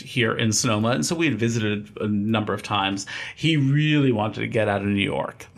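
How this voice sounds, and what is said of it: Slight East Coast American accent. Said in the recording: “you have a slight back east accent”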